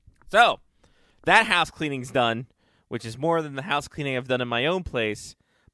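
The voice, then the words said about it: Over-enunciated Maryland accent. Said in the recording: “my dumb over-enunciated Maryland accent”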